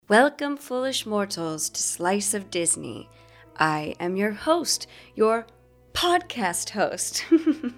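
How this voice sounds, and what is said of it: Spooky theatrical voice. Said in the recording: “my spooky voice”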